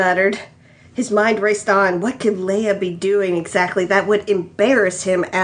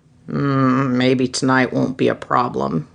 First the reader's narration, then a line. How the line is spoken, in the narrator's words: he muttered in relief